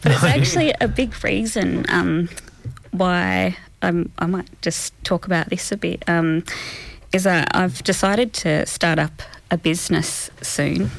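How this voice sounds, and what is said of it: Tearful, emotional voice. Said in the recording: “I'm getting a bit teary, sorry.”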